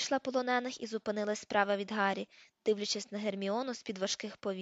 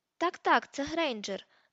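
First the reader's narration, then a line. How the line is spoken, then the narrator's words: Exclamation. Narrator (Ukrainian): вигукнув Люціус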